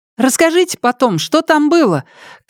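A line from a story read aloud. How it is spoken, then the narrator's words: Shouted after someone. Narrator (Russian): крикнула она ему в спину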